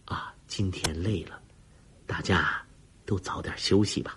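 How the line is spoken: Soft. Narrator (Chinese): 沈丹红轻声说了句

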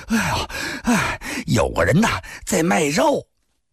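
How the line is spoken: Panting fugitive. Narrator (Chinese): 从前边逃回来的人喘着气儿说

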